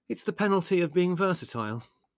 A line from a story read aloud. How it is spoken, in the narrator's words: sighed Larry